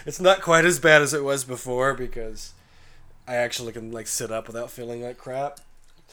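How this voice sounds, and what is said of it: Sick, congested, hoarse voice. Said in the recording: “I sound really ... you sound terrible ... I'm just a ball of mucus and coughing right now ... my voice is gone”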